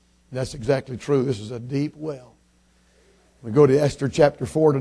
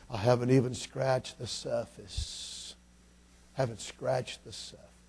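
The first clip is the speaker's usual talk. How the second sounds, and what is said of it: Southern drawl. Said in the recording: “in that southern drawl”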